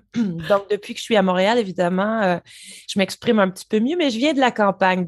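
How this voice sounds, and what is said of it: Slight Montreal Quebec French accent. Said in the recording (French): “ce petit accent qu'on entend très très très légèrement nous vient d'où ... Alors, très, très léger, oui. ... il peut être plus lourd. Donc, il vient de Montréal.”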